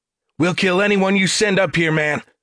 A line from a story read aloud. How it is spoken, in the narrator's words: Talbert shouted over the chainsaw's fury